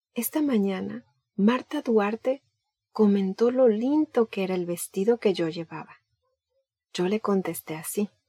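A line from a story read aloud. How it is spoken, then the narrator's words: Began slowly. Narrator (Spanish): comenzó lentamente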